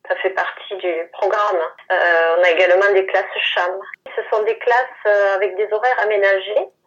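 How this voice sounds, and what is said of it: Southern French accent. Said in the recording (French): “Votre accent méridional”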